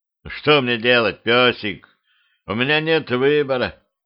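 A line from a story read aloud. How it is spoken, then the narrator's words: Tired. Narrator (Russian): устало проговорил Петрович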